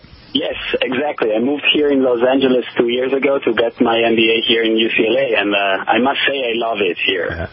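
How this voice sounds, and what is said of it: Northern Italian accent. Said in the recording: “as you can hear from the accent, I'm from Italy ... my accent is still affecting my communication ... It's from Milan, actually, from the north.”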